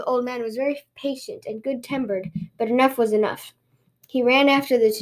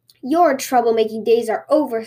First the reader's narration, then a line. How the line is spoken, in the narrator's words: said the old man angrily